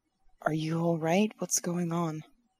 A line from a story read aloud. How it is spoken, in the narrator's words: I will kind of whisper into my shoulder